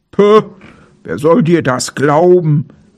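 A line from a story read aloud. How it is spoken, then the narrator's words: Bear calling. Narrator (German): rief der Bär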